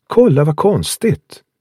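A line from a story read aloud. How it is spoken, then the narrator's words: Exclaimed. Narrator (Swedish): utbrast hon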